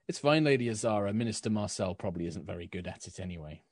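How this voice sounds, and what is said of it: Character voice with an accent. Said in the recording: “slipped into Dusk's accent.”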